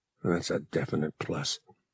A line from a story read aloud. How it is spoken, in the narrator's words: Han muttered